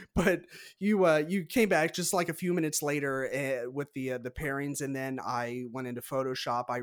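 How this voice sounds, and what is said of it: Usual voice. Nothing is said of it.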